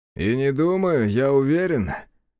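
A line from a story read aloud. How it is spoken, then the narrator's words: Wry snort. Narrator (Russian): хмыкнул Высокий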